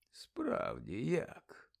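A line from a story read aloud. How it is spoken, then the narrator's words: Muttered. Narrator (Ukrainian): пробурмотів Дамблдор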